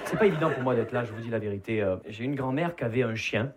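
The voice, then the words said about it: Southern French Perpignan accent. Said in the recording (French): “Vous l'entendez à mon accent, je ne viens pas de Paris. Je viens de Perpignan.”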